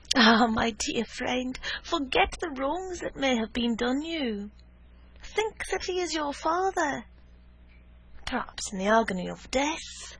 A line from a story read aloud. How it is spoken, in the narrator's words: she sighed